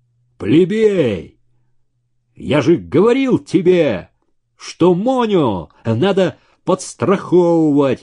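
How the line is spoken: Sudden yell. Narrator (Russian): Вдруг заорал один из парней

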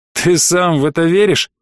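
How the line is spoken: Skeptical child's snort. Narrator (Russian): малыш скептически хмыкнул

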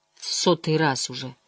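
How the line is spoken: Tired. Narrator (Russian): устало сказала Эгвейн

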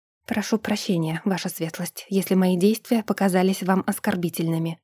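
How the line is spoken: Quiet but firm reply. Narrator (Russian): ответила тихо, но твердо

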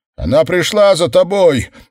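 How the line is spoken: Inner voice yelling. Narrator (Russian): завопил внутренний голос

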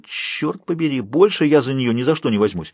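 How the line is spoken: Whining. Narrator (Russian): проскулил Калеб

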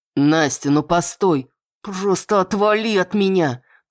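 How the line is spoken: Hiss through gritted teeth. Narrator (Russian): Цыжу сквозь зубы

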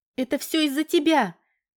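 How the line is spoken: Desperate scream. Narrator (Russian): отчаянно закричала Валька, полагая, что терять ей нечего

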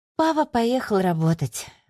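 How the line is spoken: Sighing. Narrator (Russian): вздохнула Аделия

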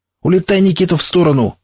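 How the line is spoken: Yelling. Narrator (Russian): заорал я

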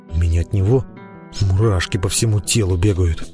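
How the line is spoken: Whispered complaint. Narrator (Russian): шепотом пожаловался Миха

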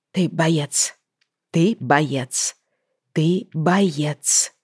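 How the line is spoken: Whispered repetition to herself. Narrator (Russian): шепотом повторяла себе Лайза

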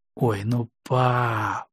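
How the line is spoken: Whiny drawl. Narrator (Russian): капризно протянула Лариса

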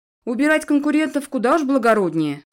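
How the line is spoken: Snorted. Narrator (Russian): хмыкнул Эдвин, и мне показалось, что расслабился

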